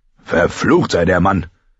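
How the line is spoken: Angry. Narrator (German): Sein Onkel Kevin klang eher zornig als überrascht

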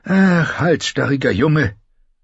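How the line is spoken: Sighing scholar. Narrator (German): seufzte der Maester

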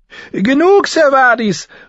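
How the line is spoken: Calling down. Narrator (German): rief Lady Lysa hinunter

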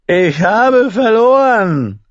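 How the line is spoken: Called out. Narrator (German): rief

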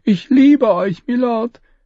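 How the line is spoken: Pleading. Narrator (German): flehte

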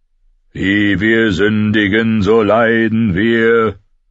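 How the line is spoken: Deep loud singing. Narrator (German): sang mit tiefer Stimme, viel lauter als die ihres Vaters

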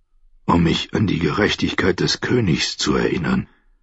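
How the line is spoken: Whisper through split lips. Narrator (German): flüsterte durch die aufgeplatzten Lippen

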